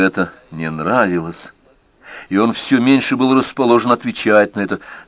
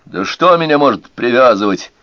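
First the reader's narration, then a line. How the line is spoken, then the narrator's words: Snapping back. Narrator (Russian): огрызнулся Рой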